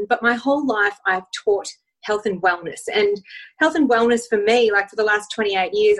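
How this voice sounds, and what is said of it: Australian accent. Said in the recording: “I'm from Australia, so I do have a funny accent”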